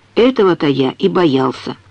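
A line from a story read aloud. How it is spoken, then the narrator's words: Gloomy reply. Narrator (Russian): мрачно откликнулся он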